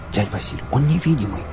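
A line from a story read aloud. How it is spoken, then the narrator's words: Fervent whisper. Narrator (Russian): горячо зашептала Настя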